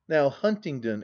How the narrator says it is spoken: exclaimed his irascible friend

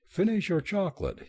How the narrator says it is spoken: pleaded

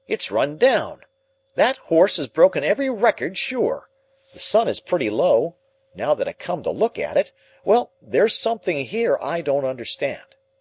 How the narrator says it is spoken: he cried

